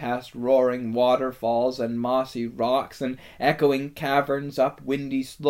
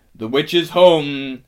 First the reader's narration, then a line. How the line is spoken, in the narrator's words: he cried